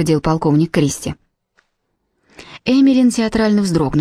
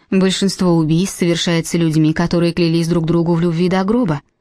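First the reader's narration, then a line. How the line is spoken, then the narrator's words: Calm. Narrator (Russian): спокойно сказала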